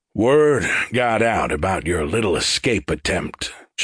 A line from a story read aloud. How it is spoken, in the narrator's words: Shovel explained in a sour tone